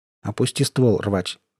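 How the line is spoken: Quiet voice. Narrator (Russian): тихим голосом сказал Сток

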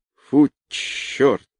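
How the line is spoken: Muttered. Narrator (Russian): пробормотал он

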